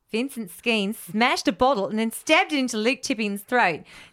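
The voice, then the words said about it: Attempted New Zealand accent, sounds Australian. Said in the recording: “I'm amazed you haven't done the accent ... No, that's more Aussie. ... It was too Aussie.”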